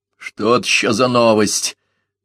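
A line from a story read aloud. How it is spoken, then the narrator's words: Muttering. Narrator (Russian): буркнул Маклеод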